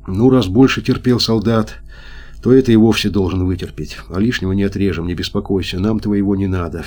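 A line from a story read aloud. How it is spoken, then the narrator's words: Gentle. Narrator (Russian): все так же мягко сказал хирург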